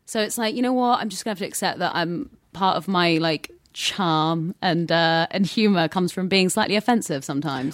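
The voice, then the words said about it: British accent. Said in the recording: “you have the British accent”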